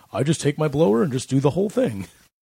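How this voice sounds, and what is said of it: Imitates another person's voice. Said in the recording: “That's a good Rob impression.”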